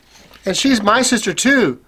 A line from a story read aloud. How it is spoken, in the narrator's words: cried Carly, beside himself with excitement